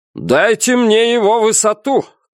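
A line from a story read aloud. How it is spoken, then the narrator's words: Shouted command. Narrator (Russian): крикнул капитан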